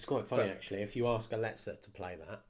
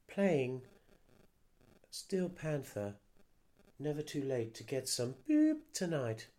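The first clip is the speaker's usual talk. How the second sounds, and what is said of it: Imitates a voice assistant. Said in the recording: “That was a good impression of Alexa. ... That was fabulous. I thought she was in the room.”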